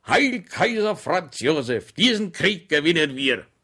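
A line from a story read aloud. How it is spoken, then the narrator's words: Loud shout. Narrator (German): schrie er laut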